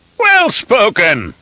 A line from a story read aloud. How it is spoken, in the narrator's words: Elrood boomed